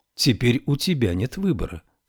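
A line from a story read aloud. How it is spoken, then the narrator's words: Calm. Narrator (Russian): спокойно сказал Ной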